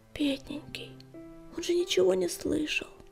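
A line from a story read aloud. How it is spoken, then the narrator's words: Whisper. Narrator (Russian): прошептала песчаная буря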